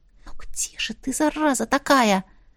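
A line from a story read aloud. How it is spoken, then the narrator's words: Barely audible whisper. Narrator (Russian): шепнула еле слышно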